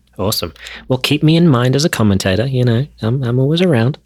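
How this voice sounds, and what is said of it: Australian accent. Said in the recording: “I love the voice. I lived in Melbourne for 2 years ... I love hearing the accent. It makes it seem like I'm, you know, back when I was 18 years old down there.”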